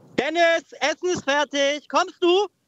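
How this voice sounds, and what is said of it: Mother calling upstairs, pitch rising. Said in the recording (German): “dieses kommst du am Ende. Mit der Stimme auch so hochgehen, so kommst du? ... So Treppen hochschreien ... richtig eigentlich Druck machen”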